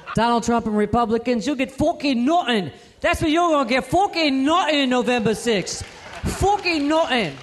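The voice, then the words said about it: Conor McGregor Irish accent impression. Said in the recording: “in honor of your Irish heritage, I'm going to break out my Conor McGregor impression”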